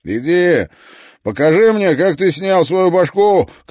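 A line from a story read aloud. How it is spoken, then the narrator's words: Shouted. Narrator (Russian): крикнул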